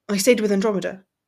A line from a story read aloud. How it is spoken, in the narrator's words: he blurted, feeling the need to break the silence